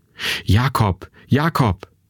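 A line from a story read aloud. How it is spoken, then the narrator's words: Breathless calling. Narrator (German): atemlos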